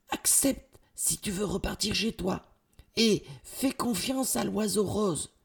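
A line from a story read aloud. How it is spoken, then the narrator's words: Boy whispering, moving away. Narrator (French): chuchote le jeune garçon en s'éloignant rapidement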